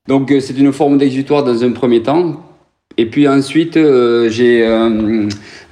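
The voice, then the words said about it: Toulouse southwestern French accent. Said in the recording (French): “cet accent du TFC, cet accent du stade toulousain, on le sent là”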